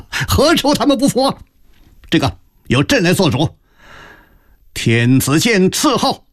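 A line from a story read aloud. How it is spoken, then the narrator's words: Sudden hearty laughter. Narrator (Chinese): 康熙突然仰天大笑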